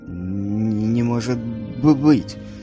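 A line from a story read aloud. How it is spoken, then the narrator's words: Babbling. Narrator (Russian): пролепетал он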